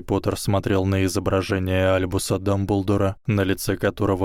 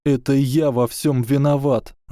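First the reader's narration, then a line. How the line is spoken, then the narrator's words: Pitiful, strained voice. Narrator (Russian): жалким голосом, еле выдавив из горла слова, сказал Гарри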